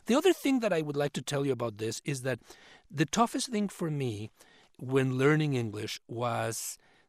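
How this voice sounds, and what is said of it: Non-native English accent. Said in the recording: “when somebody tells me they can still detect an accent”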